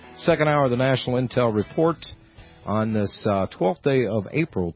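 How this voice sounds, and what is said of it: Strained, hoarse voice. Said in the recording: “I'm losing my voice here, folks”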